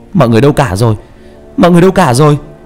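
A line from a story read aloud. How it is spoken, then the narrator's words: Shouting together. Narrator (Vietnamese): Trọng và ba cùng hét lên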